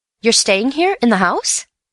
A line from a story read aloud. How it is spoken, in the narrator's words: said Bill, eagerly